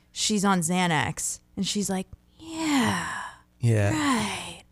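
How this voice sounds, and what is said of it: Drowsy impression of Jennifer Coolidge. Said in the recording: “that's another good impression.”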